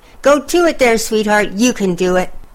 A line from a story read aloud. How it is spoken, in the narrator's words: Another cried